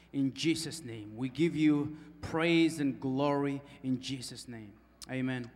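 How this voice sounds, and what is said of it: Speaks with a noticeable accent. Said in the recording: “it's more than the accent”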